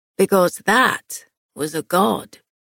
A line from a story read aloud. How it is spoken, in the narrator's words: Kieran said hoarsely